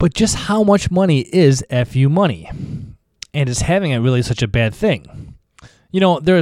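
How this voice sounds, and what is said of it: Usual voice. Nothing is said of it.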